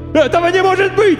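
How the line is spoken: Vagrant yelling. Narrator (Russian): вопил бомж

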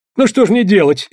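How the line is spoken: Frightened exclamation. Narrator (Russian): испуганно воскликнул он

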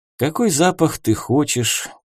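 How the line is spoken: Weary heavy sigh. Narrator (Russian): тяжело вздохнул я, предполагая трудный вечер

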